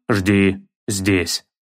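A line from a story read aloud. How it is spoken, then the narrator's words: Clipped, firm. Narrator (Russian): отчеканил Кратос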